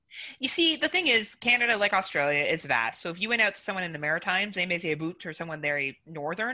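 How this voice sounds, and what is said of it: Slight Canadian twang. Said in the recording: “You do have like kind of ... a twang, right, in my accent or something. ... Yeah, you do have a little bit of a twang, but it's more like about. Like you pronounce the U more than most”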